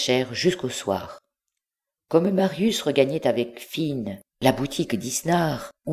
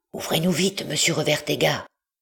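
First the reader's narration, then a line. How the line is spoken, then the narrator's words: Murmured. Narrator (French): murmura Marius à son tour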